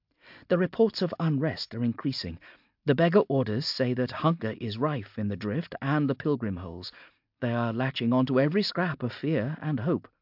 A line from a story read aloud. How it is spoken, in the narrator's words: she said